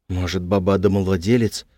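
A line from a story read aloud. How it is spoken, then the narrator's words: Father's whisper. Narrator (Russian): прошептал отец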